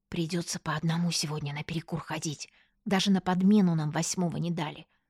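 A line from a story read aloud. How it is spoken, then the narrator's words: Whispered. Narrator (Russian): шепнула я Аньке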